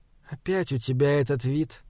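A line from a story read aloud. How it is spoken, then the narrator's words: Quiet. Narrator (Russian): тихо сказала она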